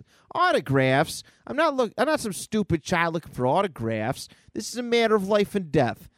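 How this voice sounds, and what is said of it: Performed character voice. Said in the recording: “I'm gonna get in character. I'm gonna get in character. I'm gonna start doing the voices.”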